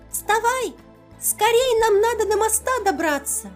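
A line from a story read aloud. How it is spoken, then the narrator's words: Lizard squeaks. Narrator (Russian): пищал ящерка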